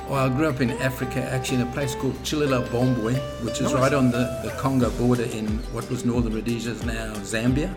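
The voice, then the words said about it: Non-local accent. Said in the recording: “accent, he's not from around here”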